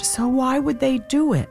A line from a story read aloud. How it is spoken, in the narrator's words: Isaac exclaimed